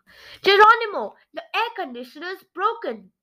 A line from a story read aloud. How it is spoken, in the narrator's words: yelled my secretary, Mausela McMauser